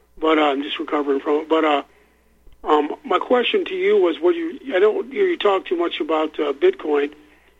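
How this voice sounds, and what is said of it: Slightly impaired, unclear speech. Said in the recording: “I had a tooth pulled, so my voice is kind of, my language ... Isn't coming out too good.”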